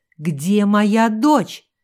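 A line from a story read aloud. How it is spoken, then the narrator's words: Shrill falsetto. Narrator (Russian): ворвался в ее мысли визгливый фальцет Луизы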